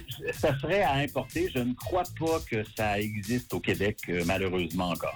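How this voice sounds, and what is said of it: Canadian French accent. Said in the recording (French): “Avec ce petit accent, ... au Canada”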